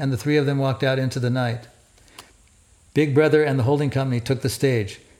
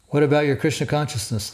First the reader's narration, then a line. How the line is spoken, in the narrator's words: the Swami asked